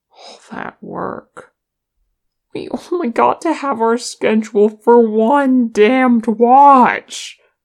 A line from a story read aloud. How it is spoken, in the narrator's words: moaned Nali